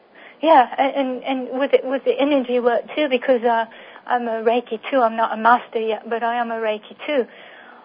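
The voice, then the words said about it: Slight, watered-down English accent. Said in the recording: “you've got a bit of that accent still. ... I probably won't lose that, although it's been watered down a bit.”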